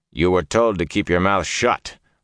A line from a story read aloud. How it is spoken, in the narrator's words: Lan growled